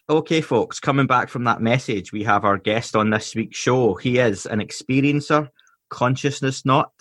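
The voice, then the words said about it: Scottish accent. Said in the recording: “in a Scottish accent”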